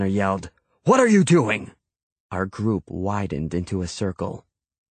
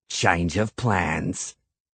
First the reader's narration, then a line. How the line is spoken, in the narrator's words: Cregan said, his mouth curved into a nasty sneer